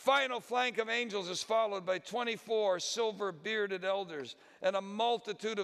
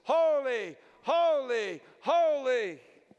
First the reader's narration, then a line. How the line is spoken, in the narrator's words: over the sound of the trumpets, the cherubim and the seraphim crying at the top of their voices